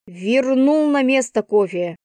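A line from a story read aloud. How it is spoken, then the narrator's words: Exasperated growl. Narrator (Russian): прорычала я, начиная выходить из себя из-за его глупого поведения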